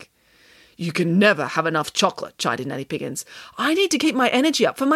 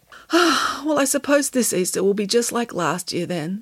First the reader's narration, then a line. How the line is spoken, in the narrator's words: sighed Samantha